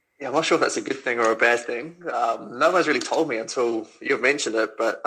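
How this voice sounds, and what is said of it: New Zealand accent, slight English tinge. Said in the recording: “good to hear another Kiwi accent ... you're getting that slightly English tweak to your accent now”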